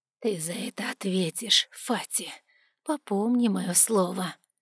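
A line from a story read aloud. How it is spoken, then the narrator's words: Quiet whisper. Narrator (Russian): тихо прошептала Марикита, жена отчима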